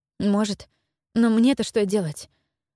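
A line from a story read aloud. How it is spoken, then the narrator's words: Trembling question. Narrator (Russian): дрогнувшим голосом спросила Джелис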